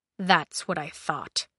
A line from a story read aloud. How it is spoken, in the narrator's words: he muttered